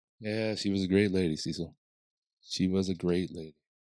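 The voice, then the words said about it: Calming Matthew McConaughey impression. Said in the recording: “that calming voice of his ... He went through the entire Matthew McConaughey.”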